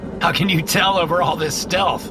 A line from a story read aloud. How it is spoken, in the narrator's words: laugh